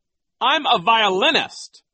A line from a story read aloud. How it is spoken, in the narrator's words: Nero cried